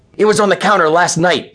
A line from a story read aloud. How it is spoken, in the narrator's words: snarled